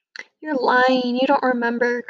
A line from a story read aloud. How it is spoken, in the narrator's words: cried the children